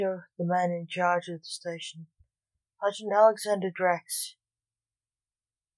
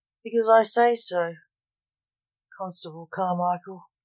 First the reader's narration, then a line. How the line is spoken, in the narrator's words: said Mortimer gruffly